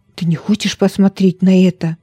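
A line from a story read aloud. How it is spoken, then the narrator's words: Whisper. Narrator (Russian): прошептал Ода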